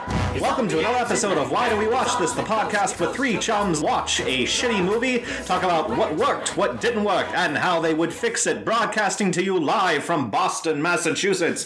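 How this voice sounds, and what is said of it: Put-on radio announcer voice. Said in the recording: “I'll keep doing my radio voice for the rest of the episode”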